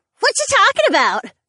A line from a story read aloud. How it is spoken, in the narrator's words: Ariana asked loudly from behind us